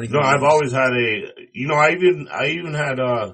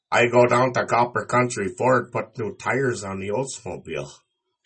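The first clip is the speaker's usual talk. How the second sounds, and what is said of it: Put-on Upper Peninsula Michigan accent. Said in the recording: “your best UP impression ... talk like one of them ... that is what it sounds like”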